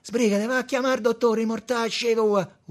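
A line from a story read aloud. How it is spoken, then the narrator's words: Shouting. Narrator (Italian): urlò Tommaso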